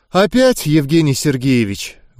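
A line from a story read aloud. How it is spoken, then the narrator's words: Heavy sigh. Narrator (Russian): Вошедшая тяжело вздохнула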